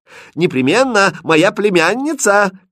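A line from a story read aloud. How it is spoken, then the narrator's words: Shouted after someone. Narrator (Russian): крикнул ей вдогонку Шут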